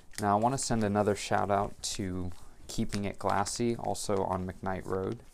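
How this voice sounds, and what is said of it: Droning, flat voice. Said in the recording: “my voice is kind of sounding droning”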